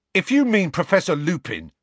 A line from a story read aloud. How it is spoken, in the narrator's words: piped up Dean angrily